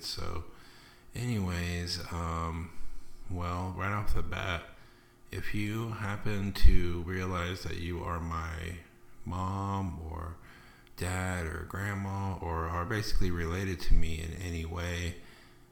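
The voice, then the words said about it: Lispy, slightly off speech. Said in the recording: “sorry if my voice sounds weird. I sound kind of lispy, I know. I had a couple teeth pulled”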